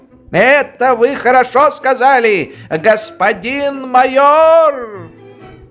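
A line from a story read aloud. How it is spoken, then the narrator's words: Shouting with a foolish grin. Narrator (Russian): генерал, глупо улыбаясь, кричал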